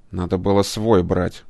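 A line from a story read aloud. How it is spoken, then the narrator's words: Grumbling. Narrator (Russian): проворчал кибернетик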